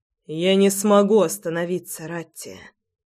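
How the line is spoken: Hoarse exhale. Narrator (Russian): Хрипло выдохнул он

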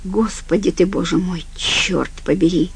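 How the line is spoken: Breathed out. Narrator (Russian): выдохнул он

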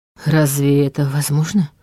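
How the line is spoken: Muttered. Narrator (Russian): пробормотал он

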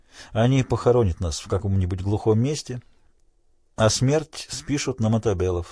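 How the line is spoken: Plain. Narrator (Russian): сказал Крейг

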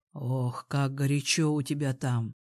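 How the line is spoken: Excited breathy exhale. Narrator (Russian): Возбужденно выдохнул Илья

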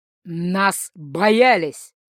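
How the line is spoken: Werewolf's growl. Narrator (Russian): зарычал оборотень

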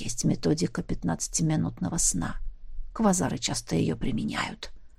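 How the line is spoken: Telepath whispering. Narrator (Russian): шепнул телепат

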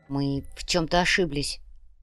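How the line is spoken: Muttered. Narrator (Russian): пробормотал внедрак

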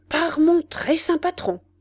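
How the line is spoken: Exclaimed. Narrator (French): s'écria Kennybol

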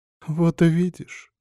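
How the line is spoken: Sobbing mother. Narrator (Russian): всхлипнула мать

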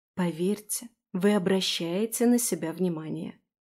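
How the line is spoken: Confiding whisper while eating. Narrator (Russian): шепнула доверительно, продолжая есть

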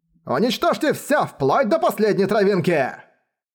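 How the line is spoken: Quiet murderous voice. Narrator (Russian): Его голос звучал не очень громко, но в нем чувствовалась чудовищная жажда убийства

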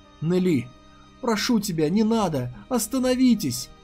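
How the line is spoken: Sobbing cry. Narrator (Russian): Захлебываясь рыданиями, крикнула Цзи Юнь

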